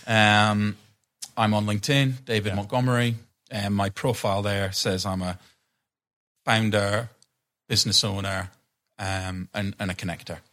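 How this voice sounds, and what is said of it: Noticeable accent. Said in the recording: “accent perhaps make things difficult”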